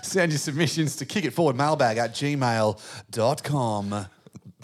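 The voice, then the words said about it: Announcer-style radio voice. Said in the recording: “It's my radio voice.”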